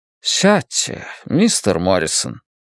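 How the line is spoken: Soft. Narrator (Russian): мягко произнес Донатти

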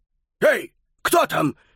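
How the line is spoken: Distant shout. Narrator (Russian): крикнул Трауфа из глубины спортзала

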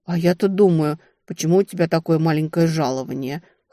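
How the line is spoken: Scoffing. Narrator (Russian): хмыкнула противница

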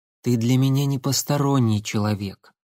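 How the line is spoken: Soft, gentle. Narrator (Russian): мягко сказала девушка

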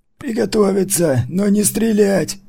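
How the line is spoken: Creaky voice. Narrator (Russian): проскрипел Маркус

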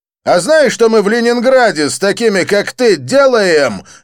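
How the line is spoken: Barked. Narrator (Russian): рявкнул блондин

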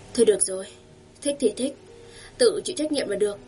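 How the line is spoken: Sighing mother. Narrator (Vietnamese): mẹ Ngôn lại thở dài một hơi

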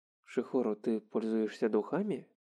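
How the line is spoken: Whisper in ear. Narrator (Russian): прошептал он ей на ухо

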